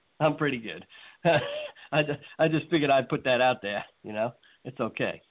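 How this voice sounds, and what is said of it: New York accent. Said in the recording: “As most of my my listeners can tell by my accent, I'm a damn Yankee, transplanted to the South.”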